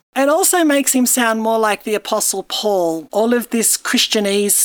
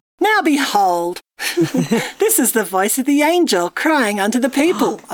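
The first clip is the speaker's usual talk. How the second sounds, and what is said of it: Put-on mid-Atlantic accent. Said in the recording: “It's that mid-Atlantic accent. ... We don't know what country we're from, do we?”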